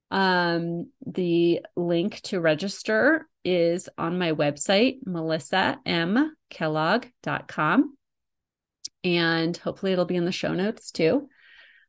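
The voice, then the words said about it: Raspy voice. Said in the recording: “raspy voice as I recover from being sick”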